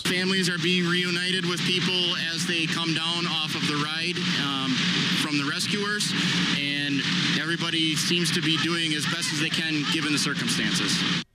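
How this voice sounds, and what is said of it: Strong Wisconsin accent. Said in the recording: “As far as Wisconsin accents go, That is the Wisconsinist accent I've ever heard.”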